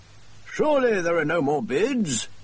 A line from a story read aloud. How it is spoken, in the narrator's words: he cried